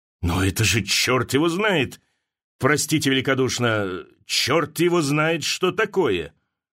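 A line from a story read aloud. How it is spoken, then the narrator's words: Gruff growl. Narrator (Russian): рыкнул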